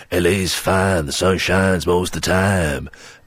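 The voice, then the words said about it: Sung imitation of another person's voice. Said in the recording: “my Neil Diamond impression ... That's very good, yeah. Excellent. You should sing now.”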